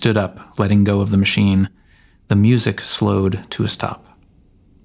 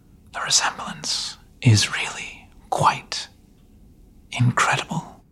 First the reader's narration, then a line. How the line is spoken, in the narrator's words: She finally whispered